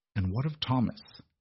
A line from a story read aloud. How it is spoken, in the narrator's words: Beatrice asked, her voice dangerously quiet